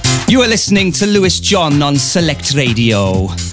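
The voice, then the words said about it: Put-on Welsh Valleys accent. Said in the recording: “It's got to be in a Welsh accent ... he's from the Valleys. And I'm not sure that's an accent I can do, but I'll give it a go.”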